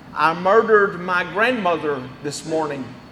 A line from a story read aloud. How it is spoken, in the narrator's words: he murmured